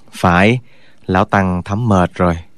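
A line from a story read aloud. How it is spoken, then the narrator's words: Weary sigh. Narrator (Vietnamese): Giác Diễn thở dài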